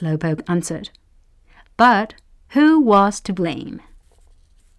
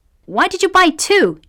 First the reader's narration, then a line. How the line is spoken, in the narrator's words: shouted